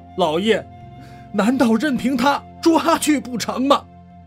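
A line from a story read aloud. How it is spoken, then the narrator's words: Crying. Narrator (Chinese): 王恒哭道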